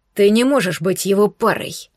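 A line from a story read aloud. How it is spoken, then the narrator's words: Uncontrolled growl. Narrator (Russian): не сдержавшись, зарычал я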